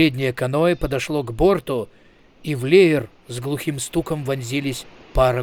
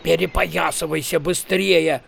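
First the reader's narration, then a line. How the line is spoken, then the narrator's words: Growl. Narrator (Russian): прорычал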